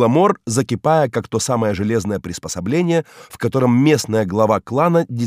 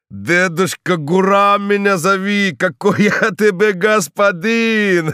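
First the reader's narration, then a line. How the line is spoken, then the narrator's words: Old man laughing. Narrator (Russian): засмеялся старик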